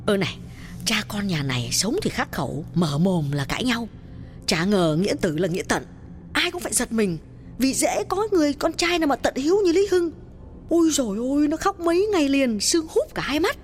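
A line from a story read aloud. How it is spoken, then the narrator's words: Women whispering. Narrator (Vietnamese): Các bà thì thầm bảo nhau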